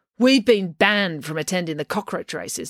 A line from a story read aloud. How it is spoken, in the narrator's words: said April angrily